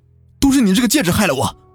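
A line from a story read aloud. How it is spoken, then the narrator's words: Angry. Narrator (Chinese): 胡磊怒道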